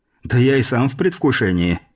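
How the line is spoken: Amused snort, French man. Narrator (Russian): хмыкнул француз

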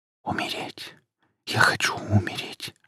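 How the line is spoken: Whisper. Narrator (Russian): шептал он

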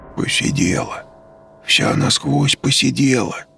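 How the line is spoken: Whispering gravedigger. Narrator (Russian): шепотом сказал другой могильщик

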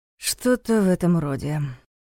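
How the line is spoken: Sighing. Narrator (Russian): вздохнул Дементьев

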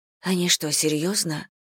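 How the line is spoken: Muttered. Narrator (Russian): пробормотала Саня

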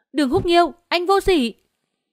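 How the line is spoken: Furious scream. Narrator (Vietnamese): Hạ Hải Dụ thét lên, chỉ cảm thấy khí huyết cuộn trào, xông thẳng lên não

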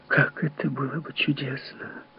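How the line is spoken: Whisper. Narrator (Russian): шепнула она

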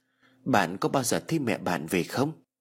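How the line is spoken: Soft sudden murmur. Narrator (Vietnamese): Tú Anh chợt thủ thỉ

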